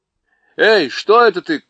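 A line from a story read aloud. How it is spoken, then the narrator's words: Startled shout of pain. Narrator (Russian): крикнул он, потому что кот именно в этот миг его царапнул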